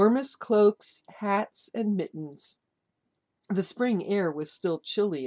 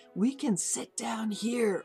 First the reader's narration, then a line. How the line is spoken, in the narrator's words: Oma whispered